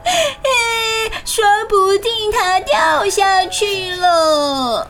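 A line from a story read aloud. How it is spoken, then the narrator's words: Crying shout. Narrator (Chinese): 猫就哭着大喊说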